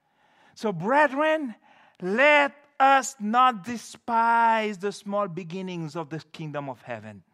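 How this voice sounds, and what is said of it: Foreign accent. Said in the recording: “I'm a foreigner. I speak with an accent.”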